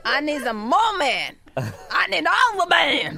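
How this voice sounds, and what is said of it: Horror voice, sounds like drunk man. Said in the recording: “Your horror accent sounds kind of like a man... Kind of... a drunk... man... Maybe my horror accent is a gay man.”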